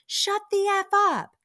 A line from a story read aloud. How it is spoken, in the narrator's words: Lisa yells